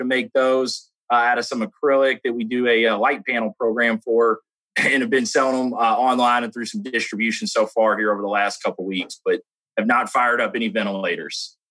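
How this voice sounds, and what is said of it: Southern Kentucky accent. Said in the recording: “You have a little bit of an accent going... I guess a little Southern Kentucky accent.”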